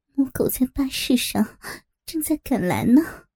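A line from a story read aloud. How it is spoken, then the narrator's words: Whispering. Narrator (Chinese): 我 怕被人听到，小声的说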